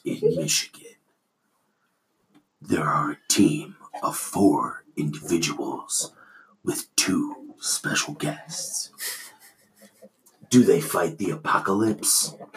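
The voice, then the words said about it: Dramatic movie-trailer narrator voice. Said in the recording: “my movie man voice”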